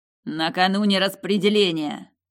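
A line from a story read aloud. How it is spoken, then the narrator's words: Growled. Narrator (Russian): прорычал он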